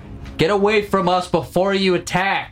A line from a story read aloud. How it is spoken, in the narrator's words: I turn around and shout